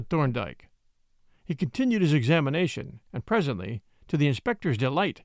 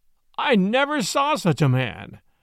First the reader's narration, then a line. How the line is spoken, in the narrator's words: exclaimed the jocose detective